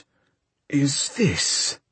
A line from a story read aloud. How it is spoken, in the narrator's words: growled the priest